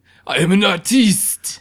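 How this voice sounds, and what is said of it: Put-on French accent. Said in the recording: “your French accent is on point”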